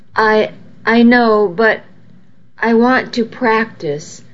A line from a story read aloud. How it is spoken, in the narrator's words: I said hesitantly